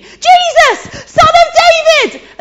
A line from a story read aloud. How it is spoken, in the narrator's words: this blind guy is screaming